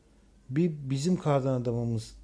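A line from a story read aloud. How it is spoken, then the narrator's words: Stammering. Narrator (Turkish): dedi kekeleyerek Muhammed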